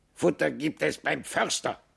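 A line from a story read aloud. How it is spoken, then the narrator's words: Croaking raven. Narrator (German): krächzte der Rabe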